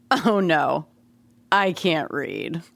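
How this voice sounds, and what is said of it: Mock voice of condescending illiterate. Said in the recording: “here's my impression of a condescending illiterate”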